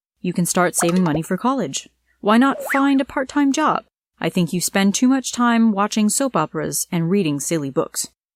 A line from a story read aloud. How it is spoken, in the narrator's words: replied